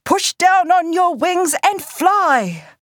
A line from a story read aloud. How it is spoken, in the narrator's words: Rereroa shouting in her ear